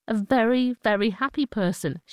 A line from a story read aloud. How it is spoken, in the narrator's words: she says